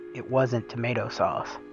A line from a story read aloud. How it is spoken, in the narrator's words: he whispered